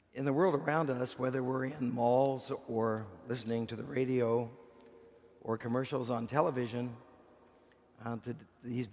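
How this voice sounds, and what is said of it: Hoarse, strained voice. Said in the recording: “I'm losing my voice, so I may not be able to preach very long.”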